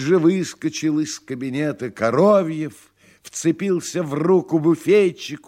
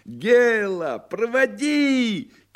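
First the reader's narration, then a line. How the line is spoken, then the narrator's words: Shouting. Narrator (Russian): кричал Коровьев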